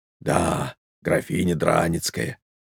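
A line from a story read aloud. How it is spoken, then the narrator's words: Whisper. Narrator (Russian): повторил Кузьмичев тоже шепотом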